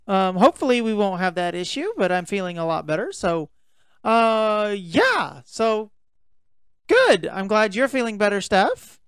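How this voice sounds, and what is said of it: Slightly raspy, hoarse voice. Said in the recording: “My voice gets a little raspy. I was a little hoarse today.”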